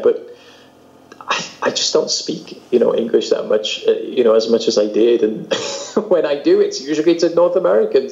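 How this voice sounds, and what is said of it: British accent with slight American influence. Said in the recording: “I still sound incredibly British to most people ... there's a few Americanisms popping in here and there ... my accent is lost in the middle of the Atlantic Ocean somewhere”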